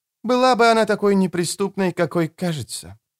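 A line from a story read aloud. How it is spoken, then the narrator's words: Sighed. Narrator (Russian): вздохнула Анна Фанг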